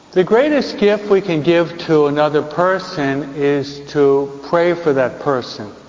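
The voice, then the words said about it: New York accent. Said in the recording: “my New York accent.”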